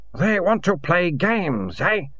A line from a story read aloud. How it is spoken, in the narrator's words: croaked